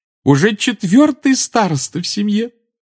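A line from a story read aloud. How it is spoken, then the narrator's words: Adoring exclamation. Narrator (Russian): с обожанием воскликнула она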